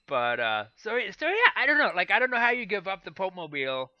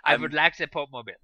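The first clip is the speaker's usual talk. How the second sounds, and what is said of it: Attempted German accent. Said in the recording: “That wasn't a German accent either, but I'm getting closer.”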